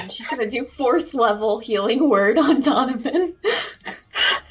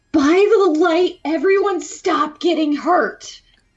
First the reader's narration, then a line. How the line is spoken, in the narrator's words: Maddie's gonna yell out